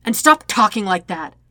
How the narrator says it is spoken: Zuko snaps

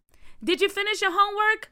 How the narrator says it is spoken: Aunt Jackie yelled out of the window

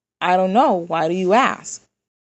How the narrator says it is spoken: Isaac asks

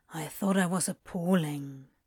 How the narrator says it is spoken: Crowley murmured

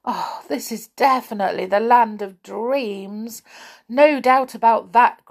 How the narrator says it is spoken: groaned Joe

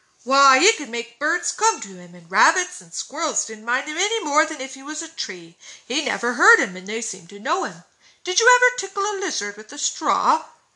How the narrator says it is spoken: asked Dan eagerly

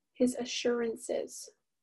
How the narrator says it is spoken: mumbled Daisy

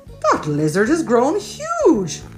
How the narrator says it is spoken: gasped George's dad

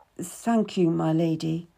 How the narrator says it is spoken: I mumbled, my head bowed

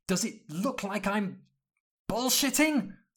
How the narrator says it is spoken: Hermione shrieked

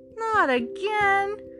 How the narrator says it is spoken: groaned the other sister

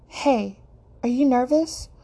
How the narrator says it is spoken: Kaya asks hesitantly

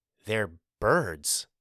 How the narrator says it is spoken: whispered, awestruck

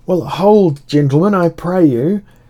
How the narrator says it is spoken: cried I across the wailing rain

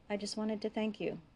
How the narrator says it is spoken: he said finally, quietly

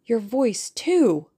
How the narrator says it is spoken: cried the delighted boy

